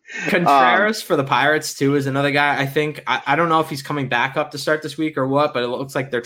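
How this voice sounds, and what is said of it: Boston accent. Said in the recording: “It wasn't as Boston-y this time. ... I just love that accent”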